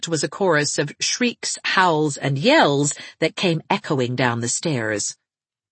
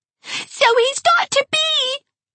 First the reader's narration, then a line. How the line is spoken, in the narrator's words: screamed Geraldine